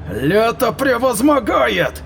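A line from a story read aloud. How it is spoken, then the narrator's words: Roared. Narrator (Russian): Взревел он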